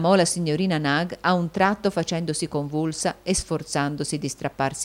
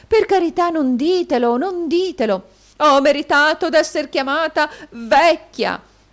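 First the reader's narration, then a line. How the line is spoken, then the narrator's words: Struggling exclamation. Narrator (Italian): esclamò la signorina Nag lottando con le ragazze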